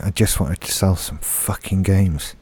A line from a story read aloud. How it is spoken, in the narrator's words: someone at Steam is just quietly banging his head on his desk, muttering